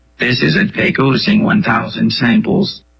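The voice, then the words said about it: Raspy, robotic, computer-like synthetic voice. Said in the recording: “it sounds very, well, fake, right? It's raspy. It's kind of robotic sounding. It sounds a bit like a computer.”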